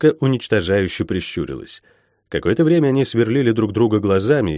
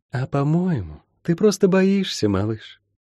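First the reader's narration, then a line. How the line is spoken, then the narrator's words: Honeyed, knowing, smiling voice. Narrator (Russian): понимающе улыбнулось и медовым голосом произнесла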